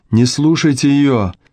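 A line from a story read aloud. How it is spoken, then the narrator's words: Shout. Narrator (Russian): закричал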